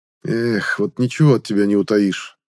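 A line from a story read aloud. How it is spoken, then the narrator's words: Sad snort. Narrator (Russian): Грустно хмыкнул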